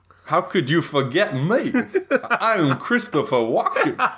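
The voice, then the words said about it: Christopher Walken impression. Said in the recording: “I don't do a great Christopher Walken impression.”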